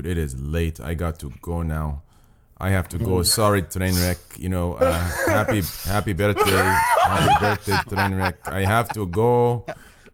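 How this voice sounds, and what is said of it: Put-on half Persian, half Russian accent. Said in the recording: “your accent is like half Persian, half Russian”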